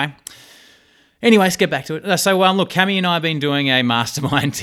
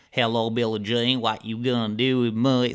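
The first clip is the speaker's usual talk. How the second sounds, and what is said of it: Put-on Southern hillbilly accent. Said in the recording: “I was doing, like, a southern accent ... that kind of hillbilly accent ... So I've been doing hillbilly accents.”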